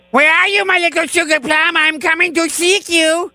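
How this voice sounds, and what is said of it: Imitates cartoon character Pepe Le Pew. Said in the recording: “my Pepe Le Pew impression ... Nailed it! I nailed it! Oh, man, I'm so good at impressions.”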